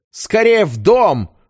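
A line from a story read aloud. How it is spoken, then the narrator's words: Barked. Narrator (Russian): рявкнул Патрик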